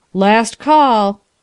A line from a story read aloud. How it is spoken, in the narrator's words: cried the negro porter triumphantly